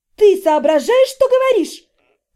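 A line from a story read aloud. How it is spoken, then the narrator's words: Shrill shriek. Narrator (Russian): взвизгнула тетя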